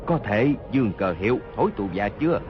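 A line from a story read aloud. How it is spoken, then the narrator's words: Low voice, wounded. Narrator (Vietnamese): Hốt Đô Hổ toàn thân giấy máu, hạ giọng nói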